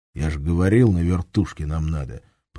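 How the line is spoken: Grumbling. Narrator (Russian): пробурчал Шамс

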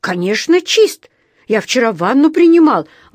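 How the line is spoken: Indignant exclamation. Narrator (Russian): воскликнул он возмущенно

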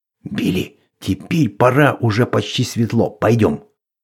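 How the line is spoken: Whisper. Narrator (Russian): шепнул

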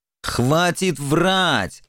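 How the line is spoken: Irritated bark. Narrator (Russian): раздраженно рявкнул Формазон

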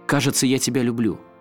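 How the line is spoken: Shouting. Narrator (Russian): я крикнул ей

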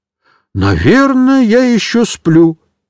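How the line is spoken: Exclaiming. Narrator (Russian): воскликнул дядюшка Бабачик

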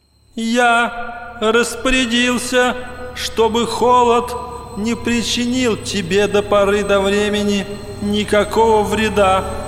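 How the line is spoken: Thin ringing voice. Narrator (Russian): Ответил кто-то тоненьким, звонким голосом

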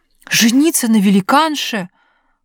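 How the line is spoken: Prince exclaiming in fury. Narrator (Russian): воскликнул принц, приходя в бешенство при одной этой мысли

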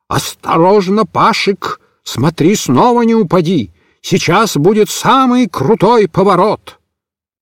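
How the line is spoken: Sudden shout in sleep. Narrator (Russian): Вдруг, не просыпаясь, Микиш прокричал

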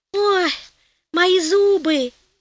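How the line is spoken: Groaning. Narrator (Russian): застонал Гонелло

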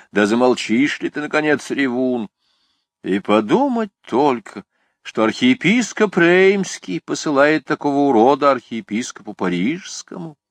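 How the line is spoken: Exclamation. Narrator (Russian): воскликнула ля Готьер

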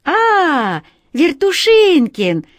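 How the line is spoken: Cheerful, carefree. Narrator (Russian): весело и беспечно сказала Катя

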